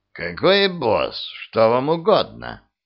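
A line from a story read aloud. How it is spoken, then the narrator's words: Creaky voice. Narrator (Russian): проскрипел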